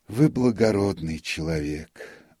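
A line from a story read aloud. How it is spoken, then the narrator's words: Sighing. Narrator (Russian): вздохнул нотариус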